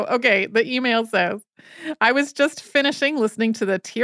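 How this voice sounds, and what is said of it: Usual voice. Nothing is said of it.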